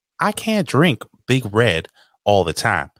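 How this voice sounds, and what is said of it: Poor attempt at Texas accent. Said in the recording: “Isn't that how they talk in fucking Texas? ... That's not a good Texas accent.”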